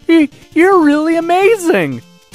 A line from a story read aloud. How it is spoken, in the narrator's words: exclaimed